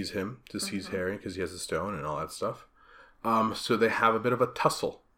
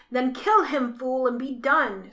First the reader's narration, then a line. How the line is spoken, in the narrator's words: screeched Voldemort